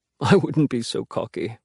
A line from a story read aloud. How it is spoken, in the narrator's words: Henry says with a small laugh